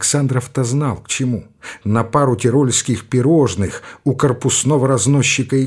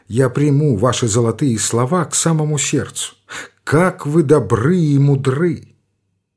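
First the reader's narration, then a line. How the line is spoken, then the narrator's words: Languid, gushing tone. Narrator (Russian): Вышневолодская пифия совсем рассиропилась и продолжала томным голосом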